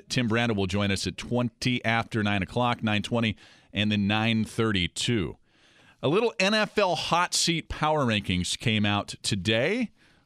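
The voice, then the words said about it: Slightly out of breath. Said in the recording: “I'm a little out of breath because I was literally running back and forth”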